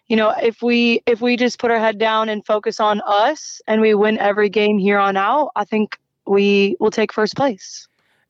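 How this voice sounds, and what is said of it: American accent. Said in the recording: “we can obviously tell from your accent and, you know, you are American”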